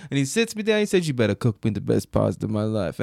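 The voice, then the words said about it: Put-on mobster accent. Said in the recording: “That's the only accent I know for a mobster.”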